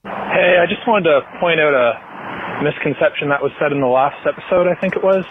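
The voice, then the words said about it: Slight Canadian accent. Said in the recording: “Did I detect a Canadian accent? ... Yeah, it might have been a little bit of... Canadian.”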